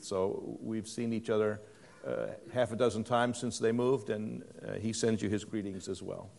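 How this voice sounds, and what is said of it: Non-native English accent. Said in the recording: “my accent is not English”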